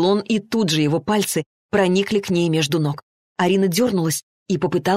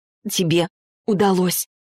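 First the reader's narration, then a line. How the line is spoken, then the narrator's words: Sobbing. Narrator (Russian): всхлипнула Арина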